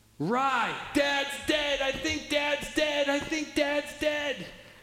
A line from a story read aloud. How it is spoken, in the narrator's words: Screaming